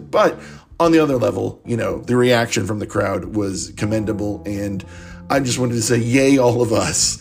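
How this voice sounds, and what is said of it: Strained voice, losing voice. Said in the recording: “I'm losing my voice”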